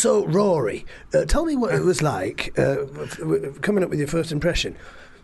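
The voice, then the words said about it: Imitates another person's voice. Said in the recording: “that was the impression of Michael Parkinson. ... Interviewing a teenage Rory Bremner.”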